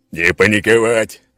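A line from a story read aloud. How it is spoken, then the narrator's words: Barked command. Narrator (Russian): рявкнул Скала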